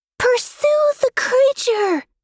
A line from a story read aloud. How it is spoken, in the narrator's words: the princess in blankets shouted